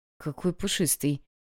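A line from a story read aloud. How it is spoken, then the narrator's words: Strained utterance. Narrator (Russian): Это все, что смог выдавить из себя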